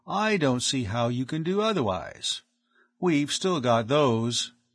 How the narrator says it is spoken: the other added coolly

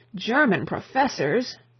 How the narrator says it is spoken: groaned out the Chancellor, as though his nervous system had received a shock

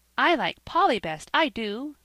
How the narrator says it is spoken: cried little Dick

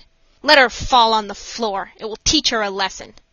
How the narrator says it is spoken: the nurses roughly said

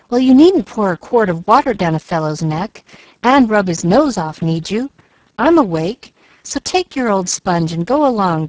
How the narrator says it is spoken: growled Jack, with a mighty gape

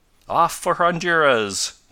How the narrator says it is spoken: cried Ned gaily

